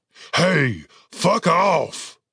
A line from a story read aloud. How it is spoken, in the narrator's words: Cooper barked